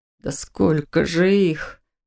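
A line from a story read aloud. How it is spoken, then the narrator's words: Breathless exhale. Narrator (Russian): выдохнул Доминик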